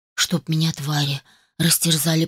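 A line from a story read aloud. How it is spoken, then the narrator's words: Muttered. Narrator (Russian): пробормотал Дик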